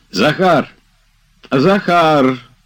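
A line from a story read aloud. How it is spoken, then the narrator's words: Loud shout. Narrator (Russian): закричал он громко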